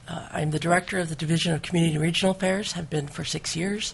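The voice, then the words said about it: Voice affected by a cold. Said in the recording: “I do have a slight cold, so I apologize for my voice.”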